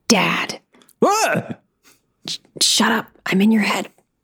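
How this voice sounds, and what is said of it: Whispering. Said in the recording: “I'm whispering to you from afar.”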